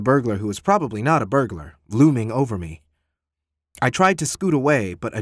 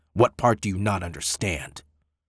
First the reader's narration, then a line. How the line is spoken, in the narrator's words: inquired grimly